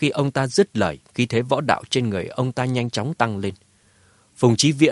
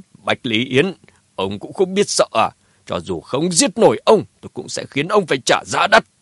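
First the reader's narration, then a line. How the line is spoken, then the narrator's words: Laughing loudly. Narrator (Vietnamese): Phùng Chí Viễn cười lớn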